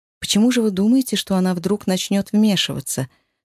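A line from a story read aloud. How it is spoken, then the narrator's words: Forced calm question. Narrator (Russian): спросила я, стараясь звучать спокойно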